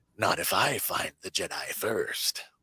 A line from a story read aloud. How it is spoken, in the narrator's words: Venomor hisses